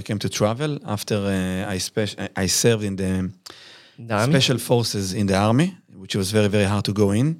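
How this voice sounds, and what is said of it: Israeli accent. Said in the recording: “So you're clearly from Israel. Yes. Judging by your accent.”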